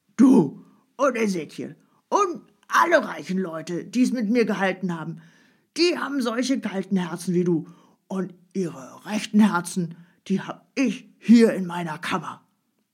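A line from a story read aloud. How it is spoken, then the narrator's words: Annoyed call. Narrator (German): rief Michel unmutig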